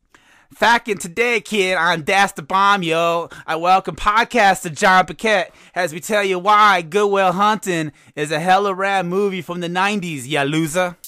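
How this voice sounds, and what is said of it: Put-on Boston accent. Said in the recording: “will I do the Boston accent? Oh, why not?”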